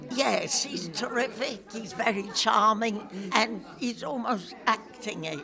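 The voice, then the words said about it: East End London accent. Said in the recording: “You sound like you came from the East End.”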